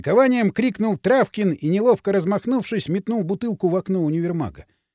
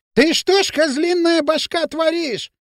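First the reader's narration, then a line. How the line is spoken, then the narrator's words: Shrill shout. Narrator (Russian): визгливо закричал Дутов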